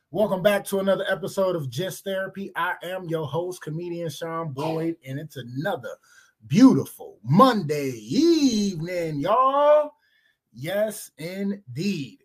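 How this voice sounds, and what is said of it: Voice rough from a cold. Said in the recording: “Sorry about the voice. ... Gave me a little cough or cold or whatever”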